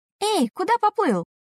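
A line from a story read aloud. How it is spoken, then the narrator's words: Sharp cry. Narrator (Russian): вскрикнула Юна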